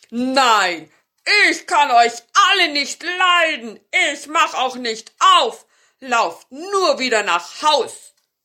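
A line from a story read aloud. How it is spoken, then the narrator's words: Called out. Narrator (German): der Zauberer rief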